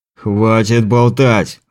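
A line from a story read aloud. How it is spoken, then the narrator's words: Growl. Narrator (Russian): рыкнул Лазарь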